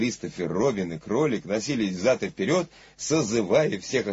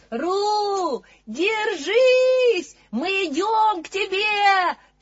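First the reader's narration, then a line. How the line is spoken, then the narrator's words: Shouting. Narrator (Russian): кричал Кристофер, Робин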